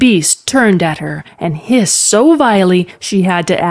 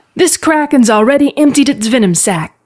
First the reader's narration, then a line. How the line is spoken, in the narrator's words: called Telvin desperately